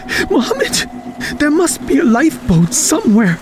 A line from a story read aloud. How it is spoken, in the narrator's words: panted Khalid, holding back his fear